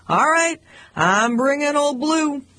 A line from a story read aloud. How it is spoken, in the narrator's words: I'd shout